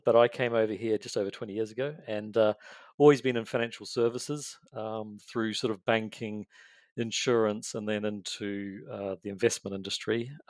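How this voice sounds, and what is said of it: New Zealand accent. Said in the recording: “in case you can't tell, the accent is from New Zealand”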